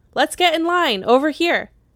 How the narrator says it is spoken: Clara's mom called out to her daughter

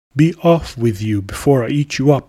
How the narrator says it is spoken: Hubert cried

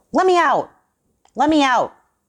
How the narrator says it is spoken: shouted Johnson

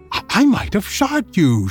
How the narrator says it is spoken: she exclaimed

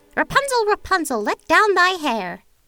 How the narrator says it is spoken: the witch cried

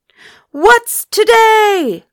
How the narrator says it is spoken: cried Scrooge, calling downward to a boy

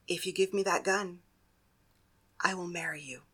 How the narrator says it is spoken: she whispered in his ear

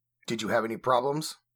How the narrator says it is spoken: asked curtly

